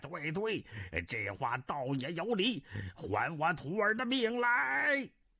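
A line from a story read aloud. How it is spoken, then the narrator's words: Roaring. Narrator (Chinese): 南海恶神吼道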